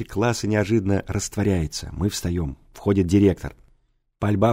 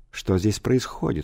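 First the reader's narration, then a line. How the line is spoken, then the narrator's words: Cold question. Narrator (Russian): холодно спрашивает директор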